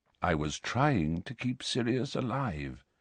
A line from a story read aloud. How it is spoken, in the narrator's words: said Dumbledore quietly